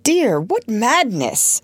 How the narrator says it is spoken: recovered himself to exclaim

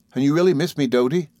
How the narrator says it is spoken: brightly smiling

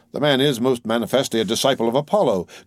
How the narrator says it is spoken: cried the amused Alice

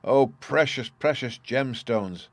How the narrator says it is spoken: faltered Shilbung

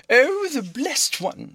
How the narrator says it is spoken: she cried

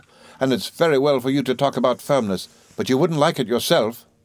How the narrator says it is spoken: cried my mother

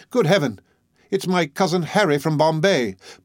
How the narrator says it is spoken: The uncle of my brother's wife exclaiming

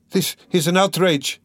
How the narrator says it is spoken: cried Dunya, turning pale as death

